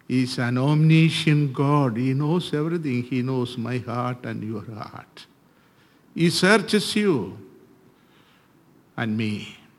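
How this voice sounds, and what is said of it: Indian-accented English. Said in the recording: “I am from India, so I don't speak American English. So please listen carefully.”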